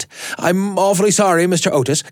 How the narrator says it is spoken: gasped the boy

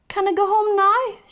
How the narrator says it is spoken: she begged

